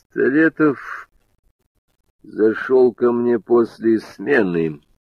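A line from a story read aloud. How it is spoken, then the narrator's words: Muffled, dull voice. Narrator (Russian): глухо сказал Гасилов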